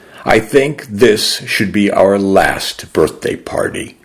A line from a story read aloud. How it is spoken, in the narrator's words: I said slowly through the grief and the ache in my chest